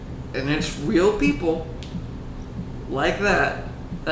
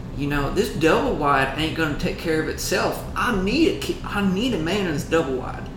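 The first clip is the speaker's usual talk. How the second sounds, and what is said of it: Put-on Southern accent. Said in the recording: “You gave him a southern accent”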